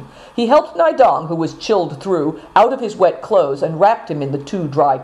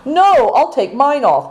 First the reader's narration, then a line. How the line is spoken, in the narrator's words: cried Affliction